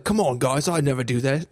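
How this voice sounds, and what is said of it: Put-on Australian accent. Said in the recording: “I made him Australian”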